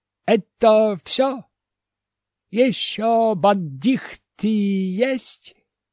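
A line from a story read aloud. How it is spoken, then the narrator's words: Accented question. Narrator (Russian): спросил я с акцентом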